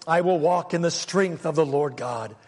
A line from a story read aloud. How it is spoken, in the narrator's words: he cried with a loud voice